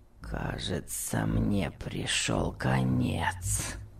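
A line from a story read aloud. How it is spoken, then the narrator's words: Groaning. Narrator (Russian): простонал Том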